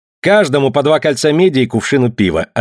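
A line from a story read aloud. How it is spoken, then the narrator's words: Curt, clipped. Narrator (Russian): отрывисто сказал он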